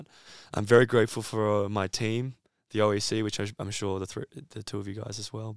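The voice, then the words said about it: Rough, hoarse voice. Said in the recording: “I sound kind of rough right now because I've got a bit of a cough, a bit of a throat thing”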